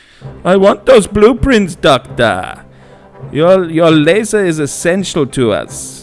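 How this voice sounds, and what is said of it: Sebastian from Little Mermaid accent, drifting German. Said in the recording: “a heavily accented voice ... who should I do the accent as? ... Yep, you're right, Sebastian from Little Mermaid. ... This has gone German now.”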